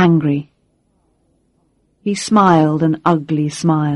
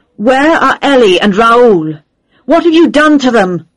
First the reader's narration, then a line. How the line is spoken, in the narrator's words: I shouted